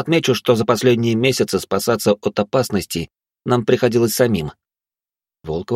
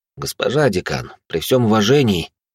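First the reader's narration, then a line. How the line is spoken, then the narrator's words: Sighing. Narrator (Russian): я вздохнул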